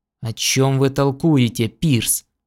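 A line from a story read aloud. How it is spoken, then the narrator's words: Angry question. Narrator (Russian): сердито спросил Кеннистон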